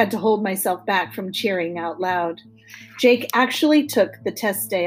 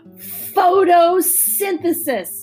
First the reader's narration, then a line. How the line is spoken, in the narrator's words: exclaimed triumphantly